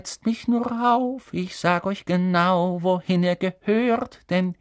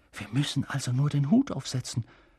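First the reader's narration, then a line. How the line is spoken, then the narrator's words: Whisper. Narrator (German): flüsterte Ron Harry zu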